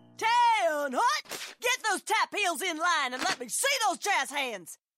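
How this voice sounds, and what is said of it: Barking drill instructor voice. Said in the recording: “my impression of a drill instructor directing a musical”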